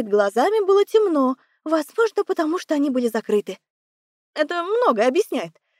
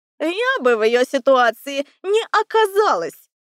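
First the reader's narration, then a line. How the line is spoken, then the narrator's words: Haughty snort, owl. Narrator (Russian): Надменно фыркнула сова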